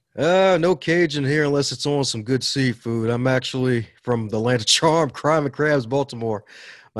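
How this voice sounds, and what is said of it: Upbeat voice, Southern American accent. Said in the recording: “Sounds like you have a little Cajun in your voice ... My Southern accent ... you have an upbeat voice”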